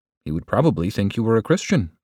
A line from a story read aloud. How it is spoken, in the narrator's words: replied